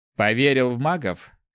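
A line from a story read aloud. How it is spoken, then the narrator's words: Skeptical snort. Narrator (Russian): хмыкнул Ари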